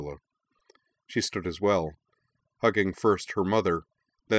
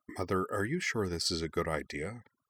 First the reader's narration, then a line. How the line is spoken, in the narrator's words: Zuko wondered quietly